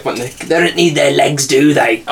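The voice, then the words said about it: A good character voice impression. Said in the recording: “That was a good impression,”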